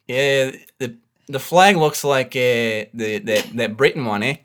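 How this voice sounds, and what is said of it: Put-on Australian accent. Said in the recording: “I was not expecting such a brilliant Australian accent. ... excellent, excellent job.”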